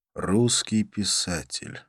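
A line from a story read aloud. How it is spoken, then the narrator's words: Sighing. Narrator (Russian): вздохнул я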